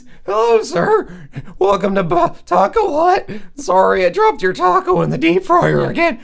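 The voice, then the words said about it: Squeaky teen voice with cracking. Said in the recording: “squeaky voice teen ... It's almost Mickey Mouse, but with like cracking voices ... You let your voice crack a lot”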